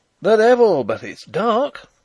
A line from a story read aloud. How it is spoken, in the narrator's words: cried a ringing voice